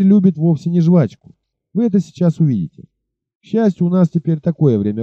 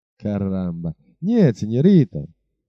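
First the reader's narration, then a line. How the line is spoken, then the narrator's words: Laughing reply. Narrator (Russian): ответил охотник за тиграми, тоже засмеявшись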